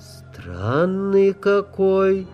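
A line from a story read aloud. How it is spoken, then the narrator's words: Singsong drawl, girlish. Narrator (Russian): певуче протянуло создание, вновь вернувшее себе облик девочки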